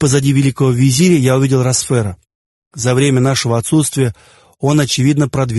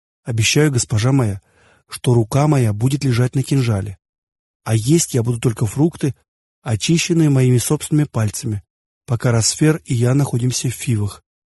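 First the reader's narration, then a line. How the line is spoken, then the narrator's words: Smiling whisper. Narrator (Russian): прошептал я и улыбнулся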